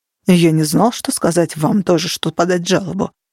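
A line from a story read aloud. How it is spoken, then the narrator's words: Muttered. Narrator (Russian): пробормотал Факел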